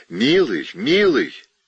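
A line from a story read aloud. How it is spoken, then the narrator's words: Loud call. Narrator (Russian): Она громко позвала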